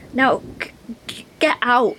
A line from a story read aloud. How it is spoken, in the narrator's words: she stammered, just before her head disappeared below the surface